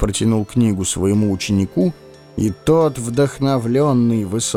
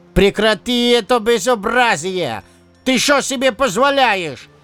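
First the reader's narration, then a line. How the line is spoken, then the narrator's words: Yelling. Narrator (Russian): Заорал на него Венедин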